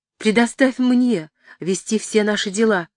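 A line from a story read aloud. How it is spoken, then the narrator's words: Exclamation. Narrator (Russian): воскликнула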